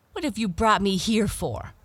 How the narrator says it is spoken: cried the proud princess angrily

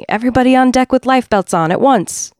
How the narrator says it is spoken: shouting

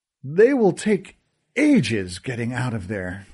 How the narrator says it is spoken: Kilty sighed

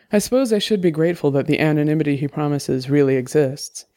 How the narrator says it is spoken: said

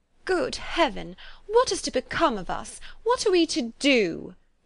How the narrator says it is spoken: would they often exclaim in the bitterness of woe

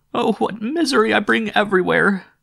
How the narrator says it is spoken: she sobbed

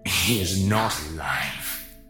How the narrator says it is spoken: the effigy hissed

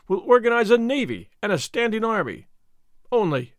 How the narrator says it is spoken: he cried in free enthusiasm

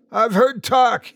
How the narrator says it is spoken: he shouted

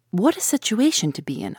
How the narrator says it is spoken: I exclaimed

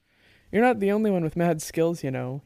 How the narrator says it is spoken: said, chuckling

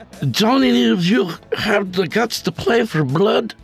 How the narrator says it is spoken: Jorge slurred to the group after taking his fifth shot of Jack

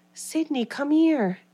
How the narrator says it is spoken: a voice whispering to her

